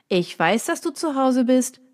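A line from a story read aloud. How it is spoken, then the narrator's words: Familiar voice calling from outside. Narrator (German): rief eine bekannte Stimme von draußen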